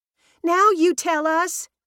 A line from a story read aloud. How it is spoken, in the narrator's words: yelled